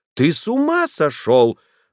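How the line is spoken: Ominous angry exclamation. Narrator (Russian): воскликнула, и в голос ее слышалась такая нота, которая предвещала семейную бурю

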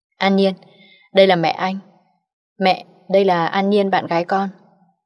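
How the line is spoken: Smiling introduction. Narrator (Vietnamese): anh mỉm cười giới thiệu

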